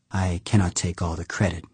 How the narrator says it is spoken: said softly

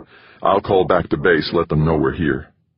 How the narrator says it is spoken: Jamie mutter

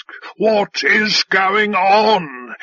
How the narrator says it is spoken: He roared

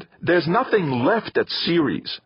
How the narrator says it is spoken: Theo snapped

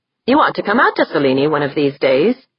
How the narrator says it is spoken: Tori said cheerfully

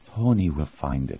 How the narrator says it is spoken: she said softly

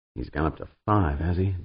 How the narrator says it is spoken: Dan muttered

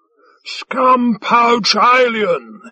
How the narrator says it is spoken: he shouted theatrically

